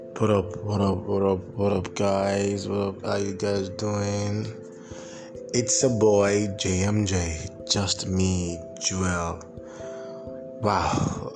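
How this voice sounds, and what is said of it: Tired-sounding voice. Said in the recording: “pardon my voice ... I'm kind of like tired”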